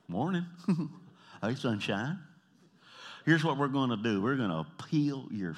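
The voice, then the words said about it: Twangy Southern accent. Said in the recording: “I'm from the South, man. When I get tired and my accent comes out and I get a little twangy”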